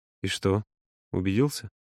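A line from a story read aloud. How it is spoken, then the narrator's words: Quiet laugh. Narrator (Russian): Юра негромко рассмеялся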